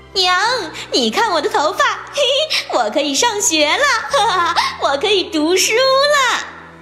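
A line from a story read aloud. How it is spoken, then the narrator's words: Joyful shout. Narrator (Chinese): 他再也按捺不住喜悦的心情，对妈妈喊道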